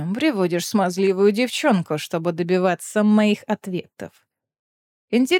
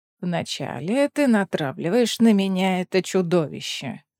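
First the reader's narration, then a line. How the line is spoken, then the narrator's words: Deliberately lazy tone. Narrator (Russian): нарочито ленивым тоном произнес Варнен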